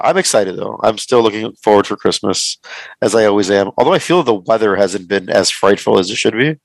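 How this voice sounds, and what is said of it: Hoarse voice from illness. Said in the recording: “pardon my voice if it sounds a little different than normal ... just getting out of being sick ... in and out of voice and coughing and phlegms”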